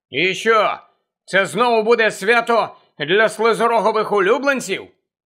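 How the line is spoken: Angry question. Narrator (Ukrainian): сердито запитав

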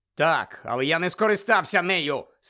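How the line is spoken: Angry interruption. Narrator (Ukrainian): сердито перебив його Гаррі

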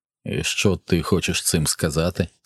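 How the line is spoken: Calm question. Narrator (Ukrainian): спокійно запитав він

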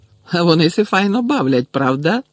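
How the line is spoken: Joyful question. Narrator (Ukrainian): радісно спитав Гегрід

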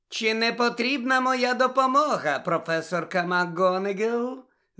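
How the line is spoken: Poisonously sweet voice. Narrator (Ukrainian): запитала Амбридж своїм отруйно-солодким голосом

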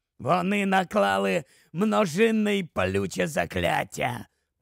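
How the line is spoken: Hoarse rasp. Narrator (Ukrainian): прохрипів Грибхук

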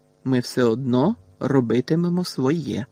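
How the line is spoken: Calm reply. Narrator (Ukrainian): спокійно відповів

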